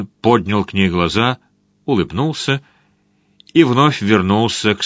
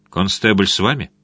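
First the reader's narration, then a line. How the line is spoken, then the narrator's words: Calm question. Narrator (Russian): Линли спокойно спросил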